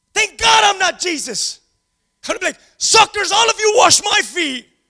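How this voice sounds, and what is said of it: Screaming, loud shouting voice. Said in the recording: “sorry for screaming so much”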